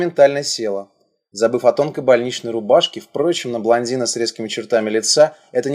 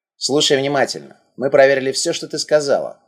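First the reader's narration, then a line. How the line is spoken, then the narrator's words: Man with a snort. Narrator (Russian): мужчина хмыкнул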